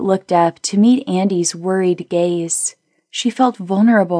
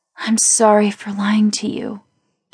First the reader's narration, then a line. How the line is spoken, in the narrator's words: Kate whispered